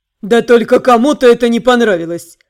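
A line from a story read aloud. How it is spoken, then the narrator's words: Chuckling. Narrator (Russian): Снова хохотнул Нейкос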